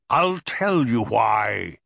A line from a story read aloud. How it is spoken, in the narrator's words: bellowed